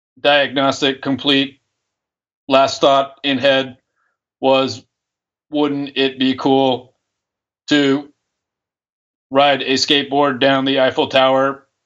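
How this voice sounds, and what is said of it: Robot voice. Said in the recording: “Safe mode only enables robot voice, not French accent.”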